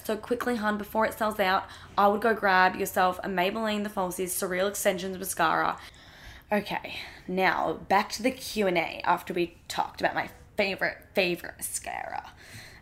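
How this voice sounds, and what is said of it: Speaks in a put-on accent. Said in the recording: “I don't know why I'm doing this accent. I'm so sorry.”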